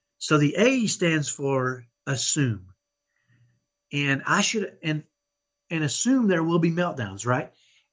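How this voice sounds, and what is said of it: Texan accent. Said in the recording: “I know I have a Texan accent. I grew up in Dallas, and I have what I call a ghetto Texas accent.”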